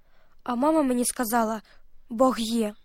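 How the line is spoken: Whisper to herself. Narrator (Ukrainian): сама собі прошепотіла

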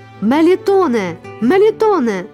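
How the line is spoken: Shouted. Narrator (Ukrainian): закричала

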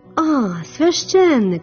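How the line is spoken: Exclaiming. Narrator (Ukrainian): вигукнула Тереза

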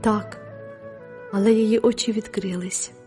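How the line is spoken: Tender. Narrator (Ukrainian): ніжно сказала мадемуазель Віртут

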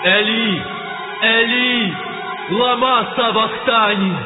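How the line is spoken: Loud cry. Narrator (Ukrainian): скрикнув Ісус гучним голосом, кажучи

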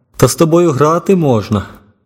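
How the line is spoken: Laughing man speaking. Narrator (Ukrainian): Китаєць розсміявся і сказав

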